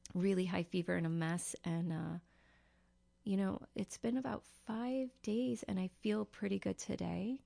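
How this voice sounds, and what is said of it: Slightly hoarse, under-the-weather voice. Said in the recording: “if I sound a little under the weather or a little more hoarse,”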